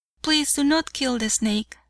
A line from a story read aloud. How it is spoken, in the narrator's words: said he